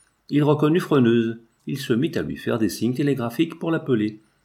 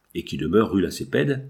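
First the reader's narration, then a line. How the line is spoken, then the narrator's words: Plain reply. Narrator (French): répondit Freneuse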